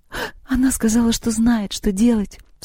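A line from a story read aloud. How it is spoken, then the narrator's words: Sobbing. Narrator (Russian): всхлипнула Лёля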